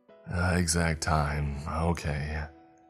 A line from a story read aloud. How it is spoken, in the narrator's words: I said with a sigh